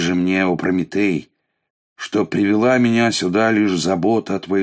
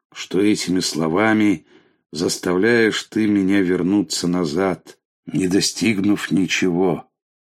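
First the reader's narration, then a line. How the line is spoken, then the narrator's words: Sad reply. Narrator (Russian): грустно отвечает Океан Прометею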